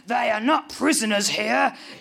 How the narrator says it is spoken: growls Peter

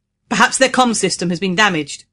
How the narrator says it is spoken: said in a loud voice to make himself heard over the wind

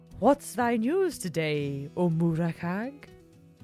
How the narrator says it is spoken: the cat purred

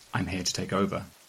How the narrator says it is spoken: I prompt him gently

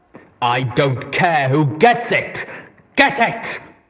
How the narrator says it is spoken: he bellowed

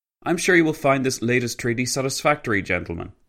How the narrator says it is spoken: Pilsudski said

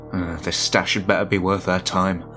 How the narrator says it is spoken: Harvey muttered

